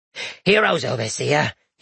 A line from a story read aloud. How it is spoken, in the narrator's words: he wheezed, doubling over